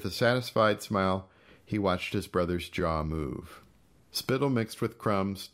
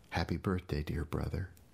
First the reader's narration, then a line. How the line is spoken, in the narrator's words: whispered softly